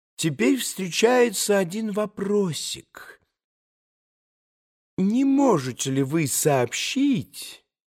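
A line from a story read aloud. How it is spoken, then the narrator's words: Extremely soft. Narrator (Russian): Чрезвычайно мягко начал Николай Парфенович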